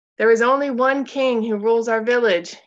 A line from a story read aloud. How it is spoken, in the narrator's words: he shouted over the clamor in the square